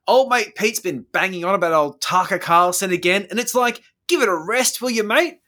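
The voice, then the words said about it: Put-on Australian accent. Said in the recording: “I had to do this in Australian voice”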